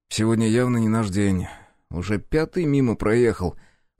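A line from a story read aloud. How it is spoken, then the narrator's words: Grumbling mutter. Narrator (Russian): буркнул я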